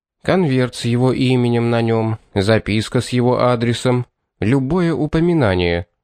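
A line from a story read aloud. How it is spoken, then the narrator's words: Even, level voice. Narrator (Russian): ровным голосом ответил Пит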